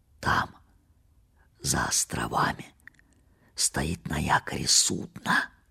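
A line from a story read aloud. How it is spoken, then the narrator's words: Whisper. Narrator (Russian): прошептал он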